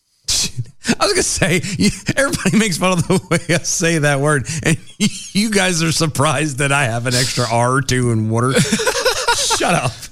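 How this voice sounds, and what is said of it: Southern accent, somewhat toned down. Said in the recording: “my accent would be much thicker than what it is now ... We are in the South ... he tones it down for the show”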